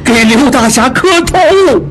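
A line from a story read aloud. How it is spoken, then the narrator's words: Shout. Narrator (Chinese): 二当家的喊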